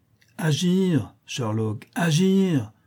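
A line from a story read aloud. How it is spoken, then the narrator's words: Exclaiming, springing up. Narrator (French): s'écria Mycroft en se dressant comme un ressort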